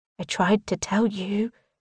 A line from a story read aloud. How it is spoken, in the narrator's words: Marisol whispers